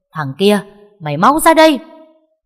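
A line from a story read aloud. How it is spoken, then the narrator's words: Furious woman screaming. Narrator (Vietnamese): Bà ta tức đến đỏ cả mặt mà gào lên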